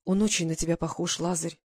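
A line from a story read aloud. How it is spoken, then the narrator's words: Quiet. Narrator (Russian): тихо сказала она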